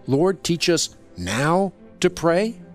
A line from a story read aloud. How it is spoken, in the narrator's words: Peter speaking for you when he pleaded